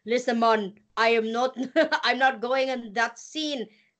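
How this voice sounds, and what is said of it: Poor put-on Jamaican accent. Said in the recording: “That was a horrible impression of a Jamaican accent, but I tried my best.”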